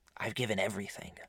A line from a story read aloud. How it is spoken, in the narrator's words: muttered